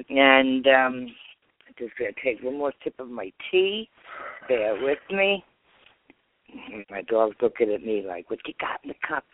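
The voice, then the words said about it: New York accent. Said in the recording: “How many of you can hear my New York accent? ... I am definitely a New York transplant”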